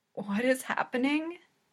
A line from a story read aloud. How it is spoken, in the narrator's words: Hinata says weakly